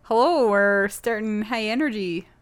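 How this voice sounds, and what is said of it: Fake Minnesotan accent. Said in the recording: “not the fake Minnesotan accent”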